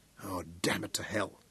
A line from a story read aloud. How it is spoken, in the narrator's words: Daniel muttered